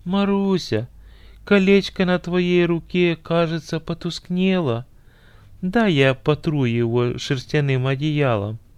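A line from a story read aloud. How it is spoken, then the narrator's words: Feigned tenderness, hidden indignation. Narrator (Russian): Негодованием закипело сердце жениха, но он скрыл свое возмущение и деланно ласковым голосом сказал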